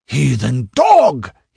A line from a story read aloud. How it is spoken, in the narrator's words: he bellowed